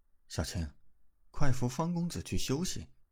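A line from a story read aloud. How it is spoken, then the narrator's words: Quiet voice. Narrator (Chinese): 赵婉婉也是小声道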